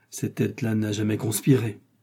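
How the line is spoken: Murmured. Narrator (French): murmura-t-il

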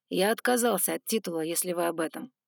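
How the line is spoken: Wry grunt. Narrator (Russian): хмыкнул он

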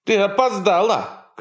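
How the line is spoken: Shouting. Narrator (Russian): крикнул Доминго

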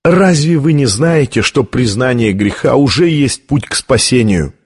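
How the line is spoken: Sad laugh. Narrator (Russian): печально рассмеялся камерарий

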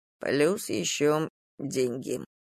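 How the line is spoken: Muttered. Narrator (Russian): пробормотал Дима

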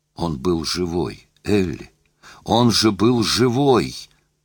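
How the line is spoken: Anguished moan. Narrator (Russian): простонал Лусин

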